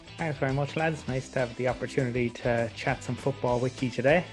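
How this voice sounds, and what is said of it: Southern Irish accent. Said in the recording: “He's got a Southern Irish accent, so this is all too familiar”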